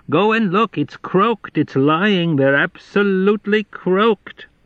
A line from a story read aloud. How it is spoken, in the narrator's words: she hollered into the darkness